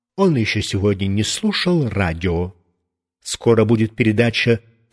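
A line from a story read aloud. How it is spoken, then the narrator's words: Stern mother. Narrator (Russian): мама строго сказала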